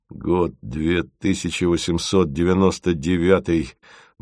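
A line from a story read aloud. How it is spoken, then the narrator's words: Grumbled. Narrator (Russian): буркнул он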